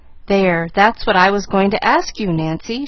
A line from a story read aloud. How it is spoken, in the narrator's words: she sighed